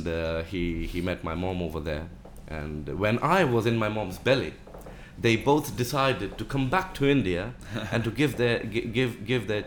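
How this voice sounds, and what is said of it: British accent. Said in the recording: “you sound like you've got a British accent though”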